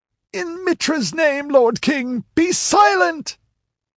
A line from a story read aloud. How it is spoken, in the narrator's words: It was the high priest of Mitra who cried out